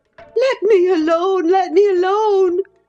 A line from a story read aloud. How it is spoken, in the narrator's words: sobbed Catherine